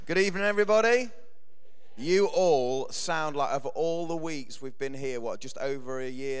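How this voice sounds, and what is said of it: Croaky, hoarse voice. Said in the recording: “my voice is a little bit croaky, it's a combination of a bit of a cold and shouting too much at the football yesterday ... it sounds a bit sexy”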